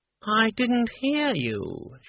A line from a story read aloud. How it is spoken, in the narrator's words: she purred